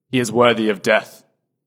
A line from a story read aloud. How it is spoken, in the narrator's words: they answered